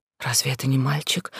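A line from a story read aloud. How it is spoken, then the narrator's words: Frightened whisper. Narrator (Russian): спрашиваю шепотом, и мне страшно слышать свой голос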